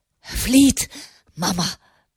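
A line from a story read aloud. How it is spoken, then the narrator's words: Gasping. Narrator (German): keuchte er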